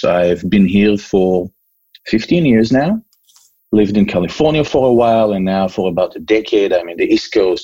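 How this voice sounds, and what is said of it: Israeli accent. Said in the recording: “I was born and raised in Israel. I don't know if you can still hear my accent. Probably yes.”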